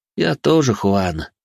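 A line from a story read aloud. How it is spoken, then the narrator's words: Sighing. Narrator (Russian): вздохнул я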